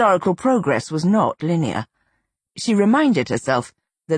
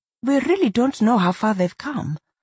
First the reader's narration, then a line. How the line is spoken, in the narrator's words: Gorma said, her tone cautious, refusing to indulge in wishful thinking